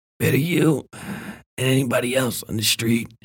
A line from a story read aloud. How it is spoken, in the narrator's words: she said, beginning to wheeze between words